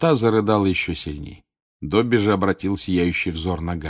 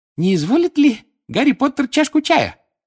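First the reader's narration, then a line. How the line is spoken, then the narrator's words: Loud squeak over crying. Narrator (Russian): громко пискнул он, перекрывая плач Винки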